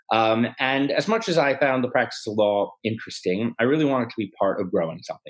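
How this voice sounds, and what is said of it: American accent. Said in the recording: “first in America, the accent's a giveaway”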